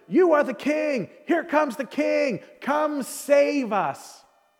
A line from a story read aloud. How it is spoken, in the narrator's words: Basically shouting